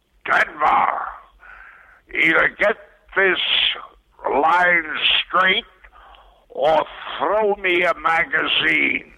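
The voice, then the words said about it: John Carradine impression. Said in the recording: “That's the best John Carradine impression I've ever heard”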